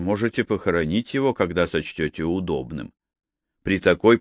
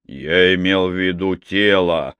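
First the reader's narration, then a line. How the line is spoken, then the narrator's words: Irritated remark. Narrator (Russian): раздраженно заметил сэр Уильям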